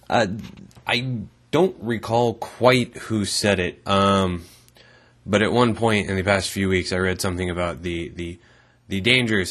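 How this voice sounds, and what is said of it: Rough, run-down sounding voice. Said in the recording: “hear from my voice, I sound kind of shitty, you a little shittier than normal. I run the fuck down”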